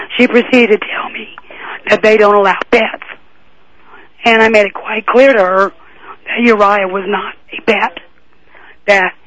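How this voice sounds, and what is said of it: Strained, impaired voice. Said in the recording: “sorry about my voice”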